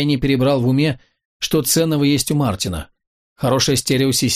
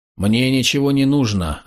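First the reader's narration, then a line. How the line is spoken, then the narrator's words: Very calm peasant. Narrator (Russian): ответил мужик очень спокойно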